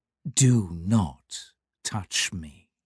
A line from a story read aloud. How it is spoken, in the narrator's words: said the stranger, quietly, politely